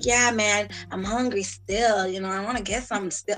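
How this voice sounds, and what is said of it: Toronto slang accent imitation. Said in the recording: “is that your serious voice? ... Toronto man accent”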